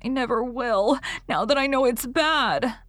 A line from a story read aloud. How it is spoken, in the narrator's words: asseverated Davy between sobs